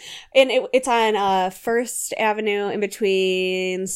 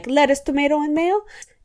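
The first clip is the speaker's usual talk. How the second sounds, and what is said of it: Imitates another person's voice with accent. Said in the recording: “run by a Polish guy ... I don't know what accent I'm giving him.”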